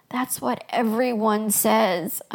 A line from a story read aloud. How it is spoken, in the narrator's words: I moaned